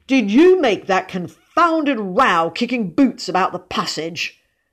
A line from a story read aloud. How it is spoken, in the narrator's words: spluttered the man of wrath